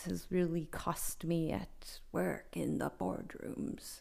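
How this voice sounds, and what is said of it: Mock deep baritone voice. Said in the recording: “that was my impression of being a baritone”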